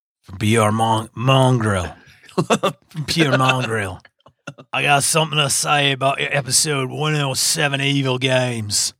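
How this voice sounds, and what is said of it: Bad put-on Australian accent. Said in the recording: “my Aussie accent ... You sound like a really bad Jango Fett.”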